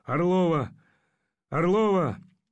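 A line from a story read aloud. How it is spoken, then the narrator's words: Hoarse calling voice. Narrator (Russian): зовущий хриплый голос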